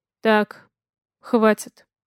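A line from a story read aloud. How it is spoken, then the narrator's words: Suspiciously calm. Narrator (Russian): говорит он подозрительно спокойным голосом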